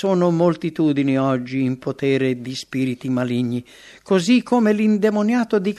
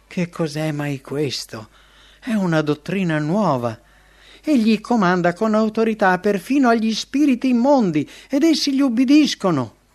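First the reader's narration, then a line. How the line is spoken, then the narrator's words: Shaken group exclaiming together. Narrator (Italian): Non appena si riebbero esclamarono tra di loro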